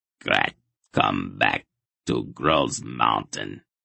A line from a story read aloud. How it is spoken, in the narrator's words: the monster growled